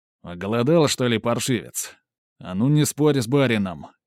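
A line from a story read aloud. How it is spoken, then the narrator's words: Harsh bark. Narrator (Russian): рявкнул Герман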